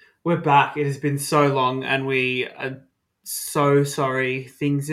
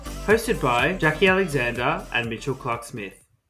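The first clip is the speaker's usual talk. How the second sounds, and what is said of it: Newsreader-style announcing voice. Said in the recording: “Look at that news voice.”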